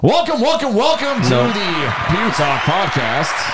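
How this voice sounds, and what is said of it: Announcer voice. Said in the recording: “the announcer voice”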